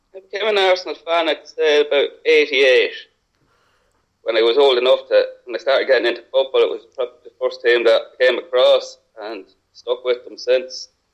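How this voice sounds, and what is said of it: Irish accent. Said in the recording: “I take it from the accent that you're not actually a standard English fan ... Well, I'm Irish”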